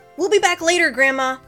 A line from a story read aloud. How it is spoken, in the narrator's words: Ben yelled toward the small cabin alongside the lake